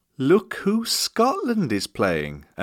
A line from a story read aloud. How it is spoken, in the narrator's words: singing quietly